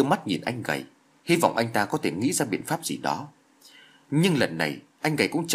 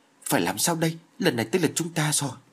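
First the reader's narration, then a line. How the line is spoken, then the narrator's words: Terrified, anxious question. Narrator (Vietnamese): Vương Tiên Giao vô cùng sợ hãi, chỉ như sắp suy sụp đến nơi, nôn nóng hỏi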